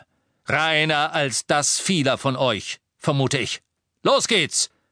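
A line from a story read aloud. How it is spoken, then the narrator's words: Thundering voice. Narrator (German): sagte er mit donnernder Stimme zu den Muckelstämmigen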